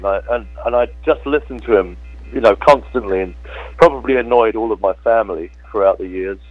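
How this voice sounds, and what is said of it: British London accent. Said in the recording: “my accent doesn't go with the singing. I was brought up in London”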